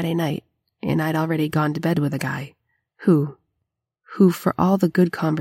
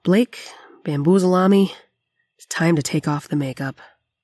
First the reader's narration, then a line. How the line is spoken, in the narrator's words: I let out a sigh and said